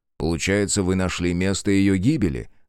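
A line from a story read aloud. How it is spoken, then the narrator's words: Plain. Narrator (Russian): спросил Белецкий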